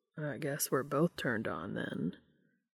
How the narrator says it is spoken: Dean said in a low rumble

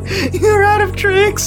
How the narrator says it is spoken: the wizard literally almost collapses in laughter, going

